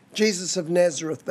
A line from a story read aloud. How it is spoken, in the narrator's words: replied